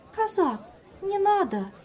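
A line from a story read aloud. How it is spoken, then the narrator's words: Frightened cry. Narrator (Russian): испуганно вскрикнула Азель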